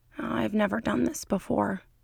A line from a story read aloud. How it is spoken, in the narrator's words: Fox mutters